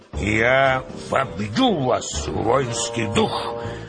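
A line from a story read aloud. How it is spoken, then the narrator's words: Hoarse commanding bass shout. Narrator (Russian): кричал полководец хриплым начальственным басом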